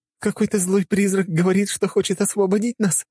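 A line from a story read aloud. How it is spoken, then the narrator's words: Sudden laughing young woman. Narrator (Russian): вдруг рассмеялась девушка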